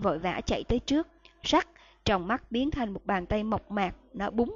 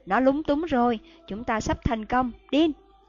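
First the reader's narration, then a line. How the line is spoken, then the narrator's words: Shout. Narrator (Vietnamese): Thầy Lupin la lên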